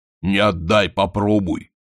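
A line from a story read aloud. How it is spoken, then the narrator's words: Booming sailor from above. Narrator (Russian): прогудел сверху матрос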